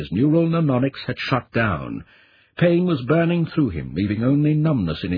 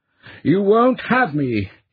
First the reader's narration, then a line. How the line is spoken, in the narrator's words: Chaz cried in defiance